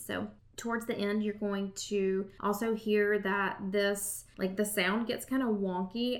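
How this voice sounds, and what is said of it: Southern US accent. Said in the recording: “my Southern accent ... And I'm sure that sounds even Southern when I say it.”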